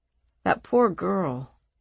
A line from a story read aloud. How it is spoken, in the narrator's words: her father said softly